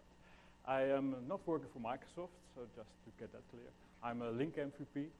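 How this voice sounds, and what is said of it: Dutch accent. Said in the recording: “I am Dutch, as you probably can hear from my accent.”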